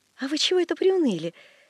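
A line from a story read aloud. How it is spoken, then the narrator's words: Cheerful question. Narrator (Russian): спрашивал дядин приказчик весело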